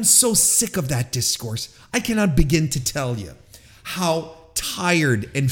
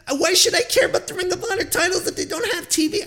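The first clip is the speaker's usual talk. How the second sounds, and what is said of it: Mocking impersonation of complainers. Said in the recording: “my little my impersonation”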